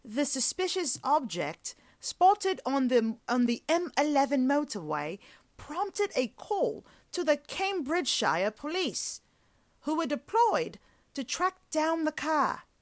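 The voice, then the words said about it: Bad put-on British accent. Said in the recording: “my British accent ... really destroy this accent ... No, that was more like Boston with the word car.”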